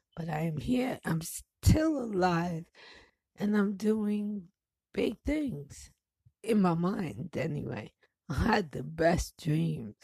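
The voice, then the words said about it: Deeper, ill-sounding voice. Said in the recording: “my voice has gotten a little bit deeper because I have like three different things trying to fuck me up at the same time”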